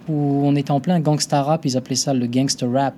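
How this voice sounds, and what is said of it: Put-on accent. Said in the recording (French): “Quel accent !”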